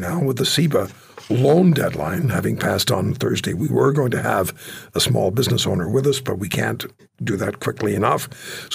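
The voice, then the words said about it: Hoarse, strained voice. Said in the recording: “As I struggle with this laryngitis”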